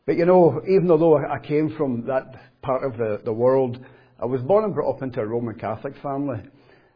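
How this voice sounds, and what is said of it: Scottish accent with Belfast tinge. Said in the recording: “I'm not from Belfast ... Glasgow, where I'm from ... I love your Belfast accent ... whether it's a Scottish one anymore or a Belfast one”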